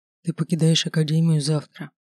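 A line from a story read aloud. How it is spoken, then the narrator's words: Muffled whisper into hair. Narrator (Russian): прошептал Кристен мне в макушку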